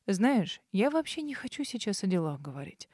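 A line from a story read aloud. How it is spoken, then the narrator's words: Soft, insinuating. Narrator (Russian): вкрадчиво сообщил Арман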